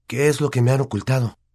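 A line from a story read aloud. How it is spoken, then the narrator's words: Longing, eager. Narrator (Spanish): dijo Harry en tono anhelante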